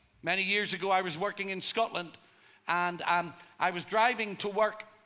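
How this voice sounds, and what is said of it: Irish accent. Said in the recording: “They have because of my accent. ... This is from Ireland.”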